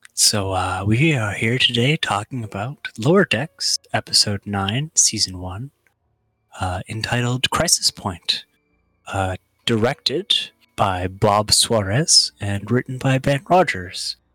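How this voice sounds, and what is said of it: Calm public-radio announcer voice. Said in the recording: “maximum NPR voice”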